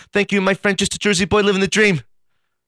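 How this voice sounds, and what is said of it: Impression of David Hurlbut. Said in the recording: “I do a great David Hurlbut ... A great impersonation or impression”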